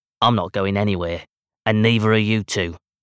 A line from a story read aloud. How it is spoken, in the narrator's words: Keelan snarls